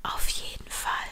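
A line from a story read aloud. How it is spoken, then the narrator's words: Smiling whisper. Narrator (German): lächelte und flüsterte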